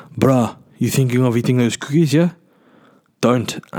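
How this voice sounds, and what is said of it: Poor put-on South African accent. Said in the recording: “That was the worst South African accent ever.”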